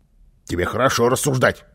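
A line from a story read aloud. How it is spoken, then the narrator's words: Angry grumble. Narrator (Russian): сердито пробурчал Карлсон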